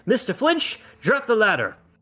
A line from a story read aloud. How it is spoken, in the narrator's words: He then shouts